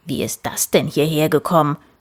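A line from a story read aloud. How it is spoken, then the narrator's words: Grumbling. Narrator (German): brummte Papa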